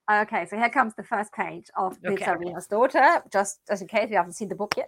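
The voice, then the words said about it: Speaks with a noticeable foreign accent. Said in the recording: “your accent, your voice, just your energy, I love it”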